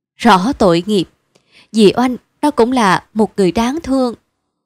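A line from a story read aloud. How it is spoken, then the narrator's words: Sad sighing, rueful. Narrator (Vietnamese): Chị Quan có vẻ buồn rầu một cách rất thành thực, đoạn thở dài và ngậm ngùi nói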